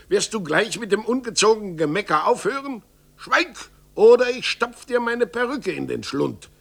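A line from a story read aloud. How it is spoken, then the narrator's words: Roaring. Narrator (German): brüllte Zorntigel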